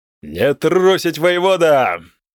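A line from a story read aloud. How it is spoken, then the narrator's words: Yelling. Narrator (Russian): заорал Остазилар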